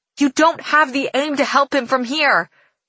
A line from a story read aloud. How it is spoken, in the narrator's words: she shouts, her voice fading